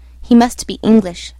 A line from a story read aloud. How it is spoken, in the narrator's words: I said